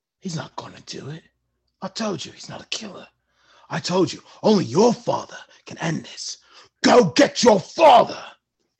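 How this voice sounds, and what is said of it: Character voice impression. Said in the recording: “That is a stunning impression.”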